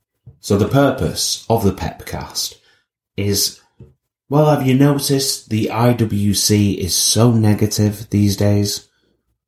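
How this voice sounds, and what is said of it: Mumbly speech with regional accent. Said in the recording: “I have a little bit of a mush mouth ... my accent”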